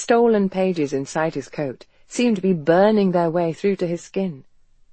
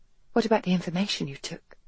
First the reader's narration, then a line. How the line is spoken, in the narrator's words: she whispered